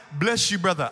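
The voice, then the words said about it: Put-on African accent. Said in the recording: “I have an African accent when I do that”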